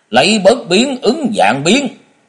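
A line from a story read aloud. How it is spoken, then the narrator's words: Loud shout. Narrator (Vietnamese): Ông ta quát to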